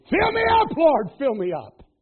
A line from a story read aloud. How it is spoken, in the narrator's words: he'd scream